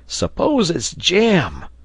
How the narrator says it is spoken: cried Neb

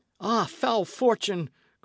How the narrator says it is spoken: cried Dick

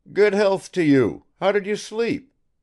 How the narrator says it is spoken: he called out

